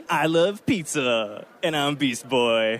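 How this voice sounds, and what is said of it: Imitates a cartoon character's voice. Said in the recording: “do an impression of your character”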